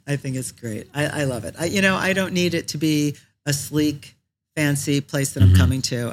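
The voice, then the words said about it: Slightly raspy voice. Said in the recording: “that's probably why I sound the way I do, just a little bit raspy.”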